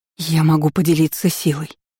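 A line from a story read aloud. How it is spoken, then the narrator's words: Hoarse wheeze. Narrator (Russian): просипела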